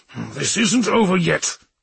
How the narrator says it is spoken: he growled

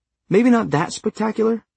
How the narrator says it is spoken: Simon said quickly

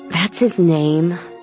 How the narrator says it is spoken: Aiden sighed

